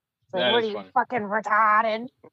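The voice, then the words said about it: Exaggerated Boston accent. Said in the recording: “he doesn't have a Boston accent, but he says it as if he does have one”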